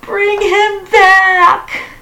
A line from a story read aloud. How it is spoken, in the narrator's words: cried the old woman